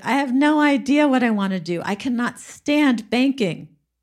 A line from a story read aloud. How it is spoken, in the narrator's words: she was whining to her brother and she said